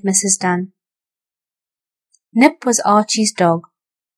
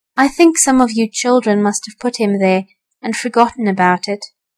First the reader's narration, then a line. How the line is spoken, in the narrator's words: said Mrs